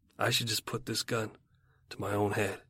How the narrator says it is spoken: muttering

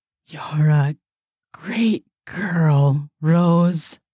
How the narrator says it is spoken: Master Animal said hoarsely

